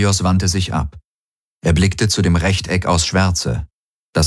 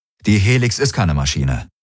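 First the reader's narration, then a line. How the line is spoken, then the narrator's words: Plain. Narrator (German): sagte Garlen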